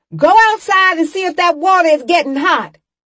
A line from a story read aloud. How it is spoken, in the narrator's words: Alberta yelled to me